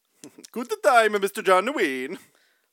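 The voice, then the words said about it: Poor put-on Russian accent. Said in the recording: “That was my Russian accent. ... That was terrible.”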